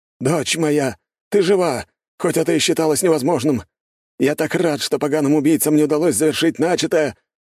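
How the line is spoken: Exclaimed. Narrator (Russian): воскликнул он

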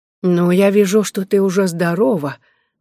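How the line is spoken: Forced, strained smile. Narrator (Russian): начала она, пытаясь выдавить капельку улыбки

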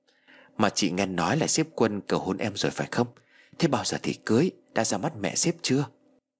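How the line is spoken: Soft question. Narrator (Vietnamese): Chị Lan khẽ hỏi

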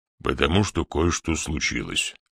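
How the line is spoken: Calm explanation. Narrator (Russian): спокойно объяснил Гэм

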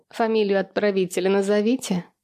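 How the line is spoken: Giggling. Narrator (Russian): хихикнула

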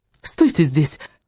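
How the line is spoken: Irritated command. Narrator (Russian): раздраженно приказала Вианна

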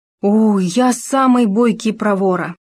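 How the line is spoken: Gopher's exclamation. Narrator (Russian): воскликнул суслик

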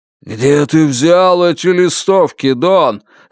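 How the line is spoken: Ominous booming voice. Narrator (Russian): зловеще прогудел Лен Миликин

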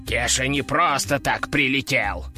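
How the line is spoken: Offended, sulky. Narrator (Russian): обиженно нахохлился он

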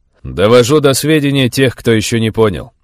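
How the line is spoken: Loud declaration. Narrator (Russian): заявил я громко

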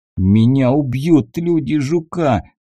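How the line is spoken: Moaned. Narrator (Russian): застонал

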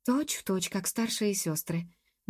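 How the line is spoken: Absent-minded mutter. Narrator (Russian): машинально пробормотала Джуб, думая о чем-то своем

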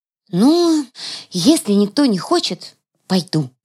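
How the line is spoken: Feigned sigh. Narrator (Russian): наигранно вздохнула я

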